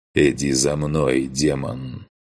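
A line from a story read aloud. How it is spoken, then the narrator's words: Deep, slightly strained voice. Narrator (Russian): Немного напряженным голосом пробасил Грон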